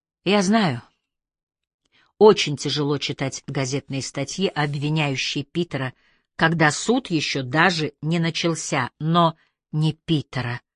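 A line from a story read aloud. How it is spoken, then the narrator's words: Quiet. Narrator (Russian): тихо сказала Лейси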